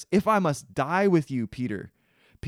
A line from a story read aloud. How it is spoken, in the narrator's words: Peter says